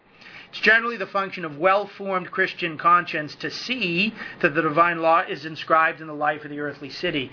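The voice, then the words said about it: New England accent, fast speech. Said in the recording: “If I've gone too fast in my New England accent”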